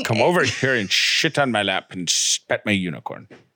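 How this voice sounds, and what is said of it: Attempted Scottish accent impression. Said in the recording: “I was going to say something in a Scottish accent, but I panicked because I can't do accents ... because I'm thinking of a Scottish accent”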